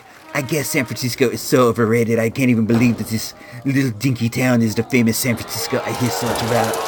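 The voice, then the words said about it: Imitates another person's voice. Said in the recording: “that Hoovy imitation. That's what he sounds like to me.”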